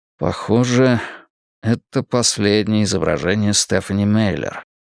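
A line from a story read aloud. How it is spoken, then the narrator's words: Mumbled. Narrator (Russian): пробормотал я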